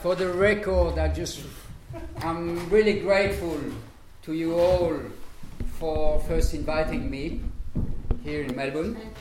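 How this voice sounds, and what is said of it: French Belgian Bolivian accented English. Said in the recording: “My French, Belgium, Bolivian accent.”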